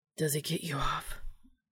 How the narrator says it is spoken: Dean breathed

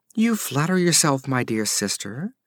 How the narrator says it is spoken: purred Salome

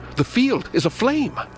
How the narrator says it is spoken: Suddenly I cried out

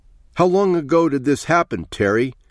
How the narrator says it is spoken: shouted down into his face

